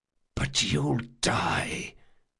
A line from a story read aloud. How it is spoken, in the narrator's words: whispered Jean